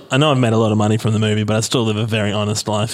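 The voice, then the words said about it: Australian accent. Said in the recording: “your accent is just a normal accent now ... if by normal you mean Australian”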